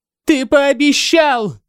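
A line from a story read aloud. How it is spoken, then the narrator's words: Yelling. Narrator (Russian): завопила она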